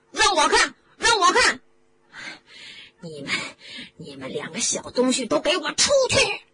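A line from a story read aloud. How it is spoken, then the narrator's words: Bellowing. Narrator (Chinese): 德斯里先生吼了起来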